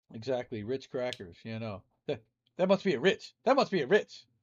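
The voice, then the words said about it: Imitates another person's voice. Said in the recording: “my Eddie Murphy impression.”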